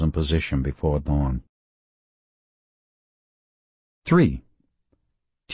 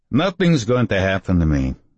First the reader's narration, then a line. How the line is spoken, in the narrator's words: Father Vikazic said firmly